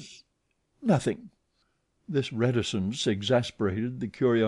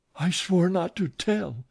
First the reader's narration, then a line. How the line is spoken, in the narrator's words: gasped Meg